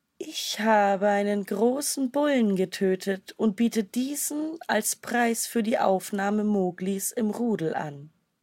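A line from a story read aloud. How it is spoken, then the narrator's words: Purring voice. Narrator (German): sprach sie mit schnurrender Stimme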